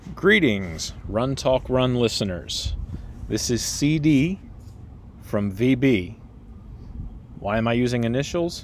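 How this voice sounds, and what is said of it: Polished radio-style speaking voice. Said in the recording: “listen to the speaking voice on this. It's just, you have the voice for radio. This is a radio voice right here.”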